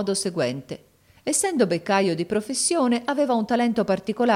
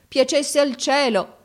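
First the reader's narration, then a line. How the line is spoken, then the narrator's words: Crying exclamation. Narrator (Italian): esclamò mio fratello piangendo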